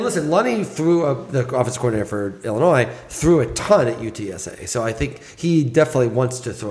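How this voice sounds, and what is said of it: Usual voice. Nothing is said of it.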